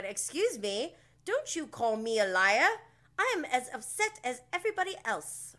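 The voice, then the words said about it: Poorly done imitated accent. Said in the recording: “That wasn't a good accent.”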